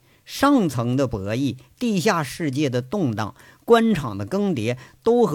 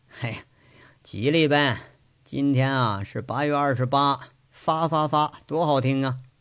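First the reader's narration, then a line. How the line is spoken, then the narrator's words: Laughing. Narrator (Chinese): 杨伟笑着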